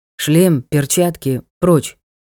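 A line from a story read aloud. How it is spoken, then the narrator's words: Muffled command. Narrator (Russian): Глухо приказал он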